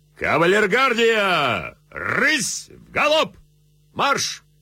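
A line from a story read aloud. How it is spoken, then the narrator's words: Shouted command. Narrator (Russian): Репнин приподнялся в стременах, крикнув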